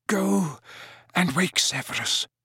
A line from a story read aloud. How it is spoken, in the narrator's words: said Dumbledore faintly but clearly